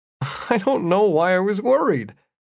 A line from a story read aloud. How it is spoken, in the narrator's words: Jeff said, chuckling